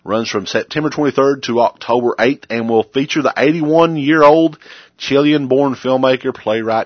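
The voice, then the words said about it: Breathless, out of breath. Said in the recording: “I'm out of breath now.”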